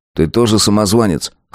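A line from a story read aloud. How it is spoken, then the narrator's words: Smirking snort. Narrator (Russian): хмыкнул Азар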